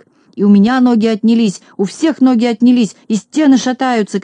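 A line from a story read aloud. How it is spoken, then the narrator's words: Shouting. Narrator (Russian): кричал Ворчун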